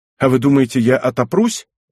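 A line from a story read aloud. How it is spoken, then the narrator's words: Almost angry reply. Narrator (Russian): Тот отвечал почти сердито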